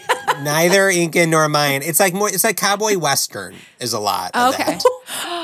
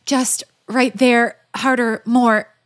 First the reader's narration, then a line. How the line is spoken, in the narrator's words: gasped for breath